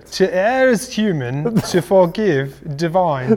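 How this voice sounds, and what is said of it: Poor attempt at posh English accent. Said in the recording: “doing it in a high English accent ... That was terrible, dude. Are you from, like, the East Coast or something?”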